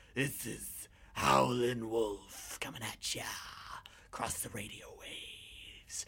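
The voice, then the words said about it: Bluesy radio DJ voice. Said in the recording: “do my DJ voice. My very bluesy DJ voice.”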